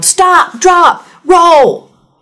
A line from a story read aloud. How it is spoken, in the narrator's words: yelled